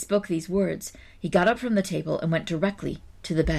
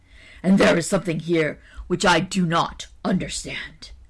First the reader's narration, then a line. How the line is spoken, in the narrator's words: replied the ogre, looking crossly